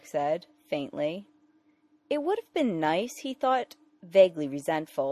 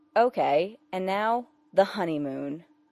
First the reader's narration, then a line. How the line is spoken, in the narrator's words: Clark said firmly